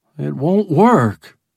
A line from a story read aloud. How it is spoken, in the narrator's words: Bob groaned